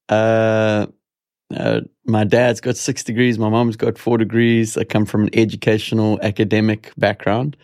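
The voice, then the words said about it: South African accent. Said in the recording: “You have an accent. ... born in South Africa”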